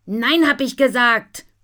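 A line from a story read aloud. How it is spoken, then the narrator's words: Shouting. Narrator (German): schreit Nina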